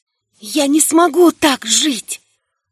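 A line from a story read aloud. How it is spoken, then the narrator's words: Muffled whisper. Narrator (Russian): прошептала ему в грудь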